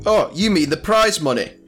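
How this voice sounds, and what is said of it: Put-on character accent. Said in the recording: “I love the accent.”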